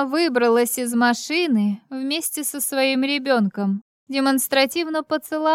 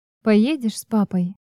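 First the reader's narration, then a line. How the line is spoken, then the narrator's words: Soft question. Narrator (Russian): Мягко спросила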